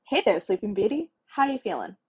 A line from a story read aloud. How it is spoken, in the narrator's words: Stark asked brightly